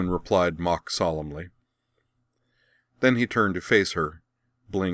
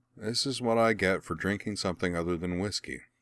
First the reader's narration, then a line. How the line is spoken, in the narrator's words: she mumbled